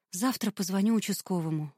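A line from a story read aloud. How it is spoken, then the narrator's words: Sighing. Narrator (Russian): вздохнула Юля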